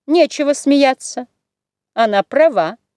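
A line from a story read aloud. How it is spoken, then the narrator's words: Dry rebuke. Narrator (Russian): сухо остановила мать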